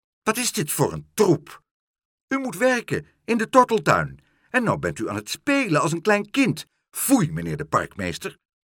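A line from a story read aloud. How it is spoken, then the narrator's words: Snapping. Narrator (Dutch): snauwde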